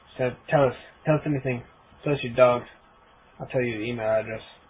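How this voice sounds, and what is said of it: Deliberately bad put-on accent. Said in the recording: “I will stop using my horrible accent, because it's horrible”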